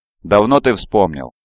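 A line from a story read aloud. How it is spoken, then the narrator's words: Cold questioning. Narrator (Russian): холодно интересуется она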